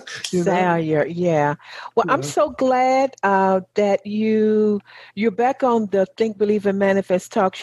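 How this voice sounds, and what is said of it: Southern US accent. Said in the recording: “my southern accent and dialect”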